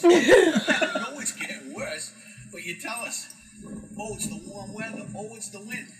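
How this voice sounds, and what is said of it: New York accent, southern-tinged. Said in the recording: “New York accent, yeah, but he's in Florida. And it's like a southern New York accent.”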